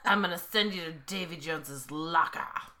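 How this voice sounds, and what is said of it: Weak attempt at pirate voice. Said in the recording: “That wasn't very pirate-ish.”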